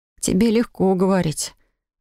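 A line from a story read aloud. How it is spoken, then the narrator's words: Sighing. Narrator (Russian): вздохнула я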